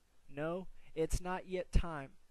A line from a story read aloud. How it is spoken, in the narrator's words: the Lord answered